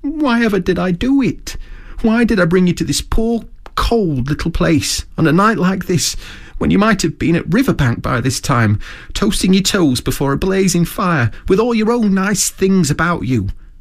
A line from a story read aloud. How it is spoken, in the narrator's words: he cried dismally